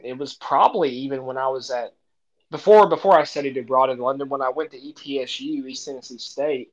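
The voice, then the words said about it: Strong regional accent. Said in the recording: “I have such a strong accent.”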